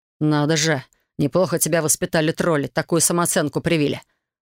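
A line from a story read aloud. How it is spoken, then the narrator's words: Snorting. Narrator (Russian): фыркнул дракон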